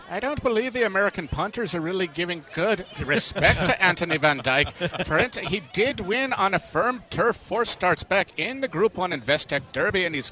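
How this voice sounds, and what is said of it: Put-on Irish accent. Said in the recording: “in my best Irish accent,”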